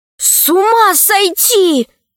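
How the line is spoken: Shouting. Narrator (Russian): крикнула Алиса

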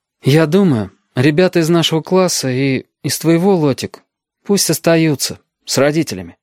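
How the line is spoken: Uncertain speech. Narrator (Russian): Галька неуверенно проговорил

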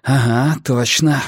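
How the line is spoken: Breathed out. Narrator (Russian): выдохнул я

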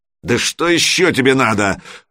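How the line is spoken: Roar. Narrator (Russian): взревел полный тезка автора

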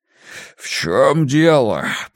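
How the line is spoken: Hoarse wheeze. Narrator (Russian): просипел он

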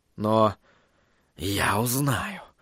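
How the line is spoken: Whisper. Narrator (Russian): прошептал он

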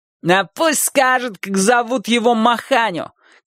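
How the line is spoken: Boy shouting. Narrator (Russian): крикнул тот мальчик, который назвал Нику москвичкой

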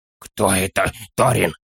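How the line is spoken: Whisper. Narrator (Russian): шепнул он

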